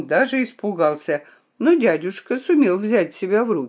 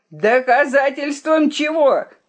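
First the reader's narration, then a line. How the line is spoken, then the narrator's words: Yelled. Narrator (Russian): заорал дядя Алан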